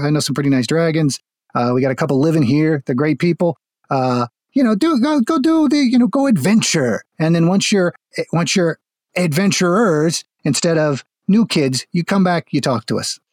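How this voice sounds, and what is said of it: Inconsistent Midwest-to-Jersey American accent. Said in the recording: “Of indeterminate regional accent, because I was going originally for like the Midwest, but I forgot and it went a little Jersey towards the end.”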